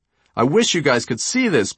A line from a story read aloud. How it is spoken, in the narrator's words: Payne shouted